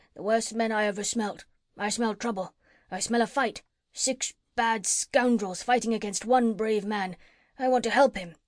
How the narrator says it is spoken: he growled

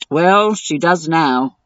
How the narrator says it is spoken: I grumbled

